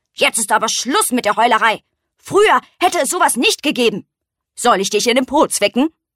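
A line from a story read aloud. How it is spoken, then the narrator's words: Stern old beetle. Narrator (German): der alte Hirschkäfer sagte streng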